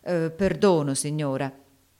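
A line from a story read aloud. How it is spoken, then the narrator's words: Muttered. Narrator (Italian): borbottò Haley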